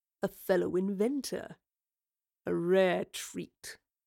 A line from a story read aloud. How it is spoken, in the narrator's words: Revel sneered